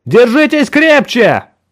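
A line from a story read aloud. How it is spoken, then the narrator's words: Shouted while falling. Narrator (Russian): крикнул я, когда мы начали падать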